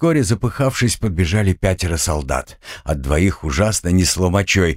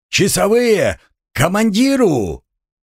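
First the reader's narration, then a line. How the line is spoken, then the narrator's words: Shouted reply. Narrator (Russian): отозвался тот же Шпонка и закричал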